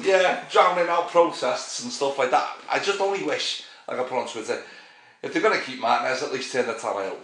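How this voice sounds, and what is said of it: Woolly back Merseyside-area accent. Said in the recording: “your woolly back accent”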